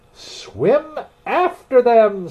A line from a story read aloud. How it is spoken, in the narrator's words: screamed the griffin